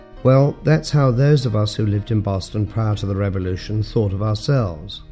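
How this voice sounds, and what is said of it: British accent. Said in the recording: “I have something of a British accent.”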